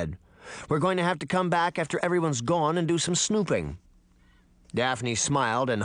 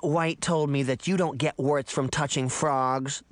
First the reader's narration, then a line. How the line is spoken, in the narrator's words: the little girl growled